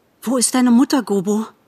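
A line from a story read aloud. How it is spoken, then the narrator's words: Breathless panting question. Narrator (German): fragte mit keuchendem Atem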